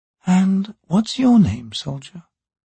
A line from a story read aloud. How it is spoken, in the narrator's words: she asked quietly